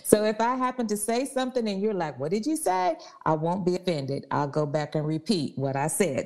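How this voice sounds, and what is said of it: East Texas / Louisiana twang. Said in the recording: “If I have a funny twang to you, that is because I live in Deep East Texas, about 10 minutes from the Louisiana border ... I got a little bit of that Texas thing going. I got a little bit of that Louisiana thing going”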